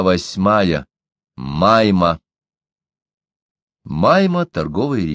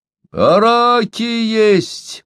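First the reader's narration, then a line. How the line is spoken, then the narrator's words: Cheerful shout. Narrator (Russian): весело кричал низкорослый гольд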